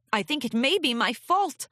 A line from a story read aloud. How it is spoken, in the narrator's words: Luna called out